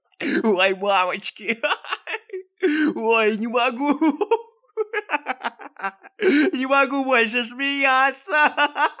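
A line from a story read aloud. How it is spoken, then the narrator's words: Guffawing forest spirit. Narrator (Russian): Хохотал леший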